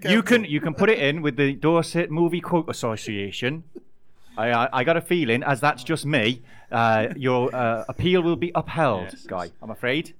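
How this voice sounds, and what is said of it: Inconsistent put-on regional accent. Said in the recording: “my accent's gone all over the place for that”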